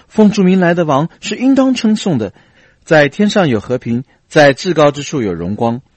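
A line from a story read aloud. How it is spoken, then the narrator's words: Joyful loud praise. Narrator (Chinese): 众门徒因所见的一切异能都欢乐起来，大声赞美神说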